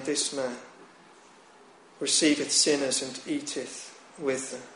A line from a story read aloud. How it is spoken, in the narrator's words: the Pharisees and scribes murmured, saying